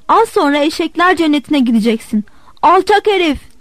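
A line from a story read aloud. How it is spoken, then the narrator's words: Shouted. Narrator (Turkish): diye bağırdı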